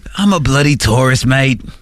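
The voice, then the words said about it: Put-on Australian accent. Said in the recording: “We're doing like Australian accents”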